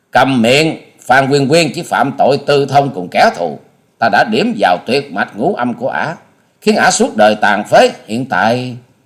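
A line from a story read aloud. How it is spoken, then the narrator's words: Furious loud shout. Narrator (Vietnamese): Hà Xà tiên tử càng như lửa cháy thêm dầu, bà quát to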